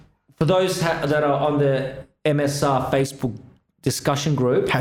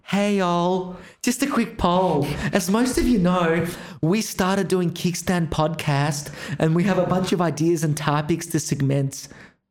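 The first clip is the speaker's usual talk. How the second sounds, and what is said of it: Imitates another person's voice. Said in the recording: “my best impersonation of what ours sounds like”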